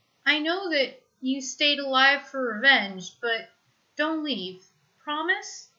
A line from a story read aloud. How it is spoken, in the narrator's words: He sounds very young